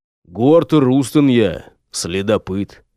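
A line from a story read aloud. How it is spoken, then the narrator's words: Gloomy. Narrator (Russian): мрачно проговорил Гортер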